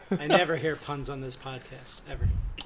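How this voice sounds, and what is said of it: Sarcastic delivery. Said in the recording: “It was sarcasm.”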